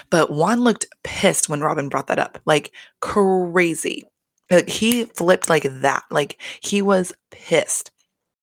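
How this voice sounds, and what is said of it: Hoarse, losing voice. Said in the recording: “losing my voice right now”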